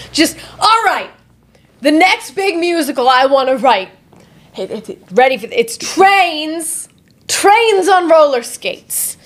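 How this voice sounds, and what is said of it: Poor imitation of another person's voice. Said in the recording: “terrible Andrew Lloyd Webber impression ... I thought he was British”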